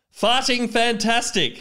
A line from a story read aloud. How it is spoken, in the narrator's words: shouted Derrick as loud as possible